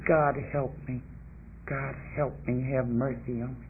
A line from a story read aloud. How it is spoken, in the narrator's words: would fall in bed drunk, and I'd mumble the words